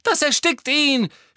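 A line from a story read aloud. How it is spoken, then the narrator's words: Injured girl screaming. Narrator (German): schrie Ginny, die mit ihrem gebrochenen Knöchel wie gelähmt am Boden lag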